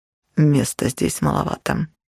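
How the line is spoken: Whispered. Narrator (Russian): шепнул он

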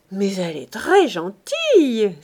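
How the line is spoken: Delighted exclamation. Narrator (French): s'écria Chanteau, ravi

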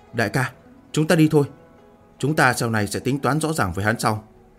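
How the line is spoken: Soft through gritted teeth. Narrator (Vietnamese): Hỏa Minh Hương khẽ cắn răng nói

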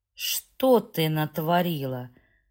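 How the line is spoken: Through gritted teeth. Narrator (Russian): процедил Стэнли сквозь зубы

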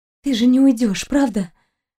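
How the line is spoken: Hoarse and quiet. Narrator (Russian): Голос Кристины звучал хрипло и тихо

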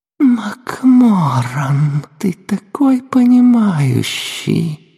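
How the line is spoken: Flirtatious purr. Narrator (Russian): промурлыкала

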